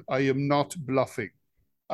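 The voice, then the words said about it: Put-on Russian leader accent. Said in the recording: “your Putin accent. Do your best Putin accent.”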